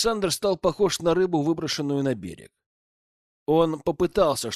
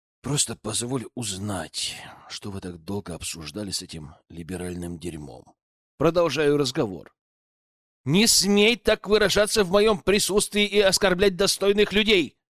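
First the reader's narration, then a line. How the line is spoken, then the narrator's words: Calm, fairly firm. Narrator (Russian): Брат уже успокоился и ответил более или менее твердым тоном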